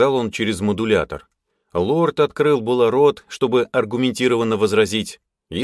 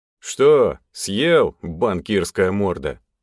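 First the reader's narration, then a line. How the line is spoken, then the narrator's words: Phlegmatic question. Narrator (Russian): флегматично спросил Тёма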